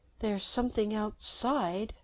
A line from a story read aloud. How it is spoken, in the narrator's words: Jennifer said in a small voice